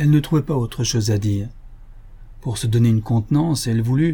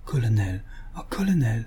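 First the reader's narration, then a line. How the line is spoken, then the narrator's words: Deeply moved murmur. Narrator (French): Elle murmura, très émue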